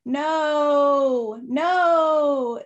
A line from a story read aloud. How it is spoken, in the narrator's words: the kids yelled